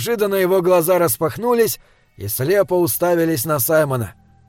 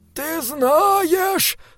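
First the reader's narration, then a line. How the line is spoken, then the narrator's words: Monk moaning. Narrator (Russian): стонал монах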